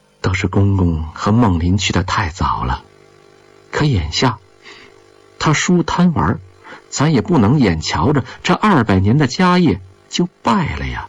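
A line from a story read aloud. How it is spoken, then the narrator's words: Sighing. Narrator (Chinese): 张理事叹息着说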